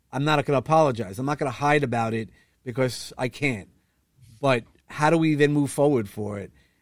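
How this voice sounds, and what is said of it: Brooklyn New York accent. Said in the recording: “that Brooklyn, New York accent.”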